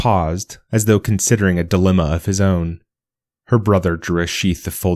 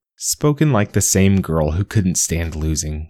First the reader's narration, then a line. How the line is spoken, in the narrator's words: said Sona